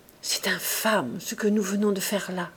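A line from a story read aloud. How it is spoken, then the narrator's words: Sobered grave murmur. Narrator (French): murmura-t-elle, dégrisée, la face vieillie et toute grave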